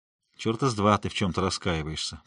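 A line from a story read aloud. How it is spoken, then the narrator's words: Grumbling. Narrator (Russian): проворчал я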